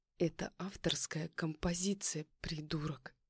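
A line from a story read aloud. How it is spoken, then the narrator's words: Hissing through teeth. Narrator (Russian): Зашипела сквозь зубы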